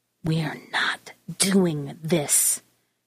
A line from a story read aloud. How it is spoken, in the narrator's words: hissed